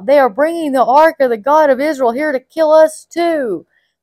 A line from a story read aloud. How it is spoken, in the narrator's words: the people of Ekron cried out